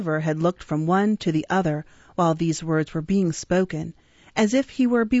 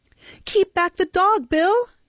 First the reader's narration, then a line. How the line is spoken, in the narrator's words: cried Nancy